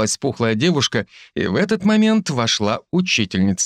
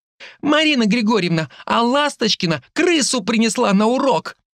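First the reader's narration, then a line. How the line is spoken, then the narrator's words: Girl calling out. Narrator (Russian): выкрикнула девушка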